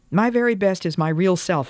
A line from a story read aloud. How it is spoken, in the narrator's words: cried